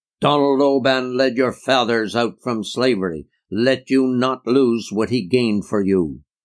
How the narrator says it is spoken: an old Scot in the valley thundered out at a public meeting

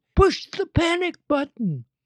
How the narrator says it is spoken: yelled

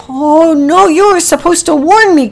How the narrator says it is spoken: cried Packy

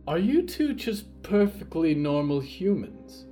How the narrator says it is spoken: The pale woman sighed

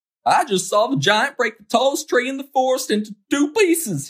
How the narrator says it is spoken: cried

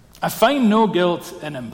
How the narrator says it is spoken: says

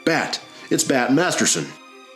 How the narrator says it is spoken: Someone spotted the figure lying behind the railroad embankment and shouted

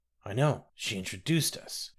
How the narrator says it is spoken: she groaned

